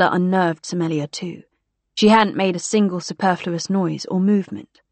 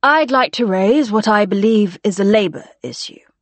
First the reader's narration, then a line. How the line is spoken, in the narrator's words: said Somalia